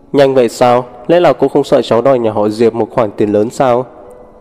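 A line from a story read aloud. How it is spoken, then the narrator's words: Laughing, calm and measured. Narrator (Vietnamese): Nguyễn Tích Cầm không tức giận mà bật cười, vẫn nói không nhanh không chậm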